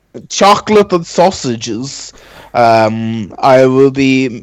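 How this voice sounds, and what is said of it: Put-on foreign accent. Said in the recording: “I don't know why I'm still persisting with this accent.”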